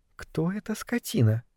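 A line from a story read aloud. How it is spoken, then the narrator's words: Whispered. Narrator (Russian): шепнула она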